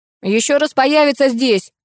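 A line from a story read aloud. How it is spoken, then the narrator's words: Old man grumbling. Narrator (Russian): проворчал дед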